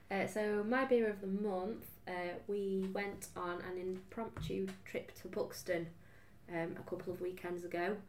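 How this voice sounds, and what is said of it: Slightly husky voice. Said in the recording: “I did have a cold and I'm slightly husky”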